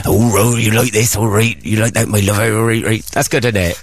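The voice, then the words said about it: Imitates another person's voice. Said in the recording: “he's got the accent ... your impression of Justin again”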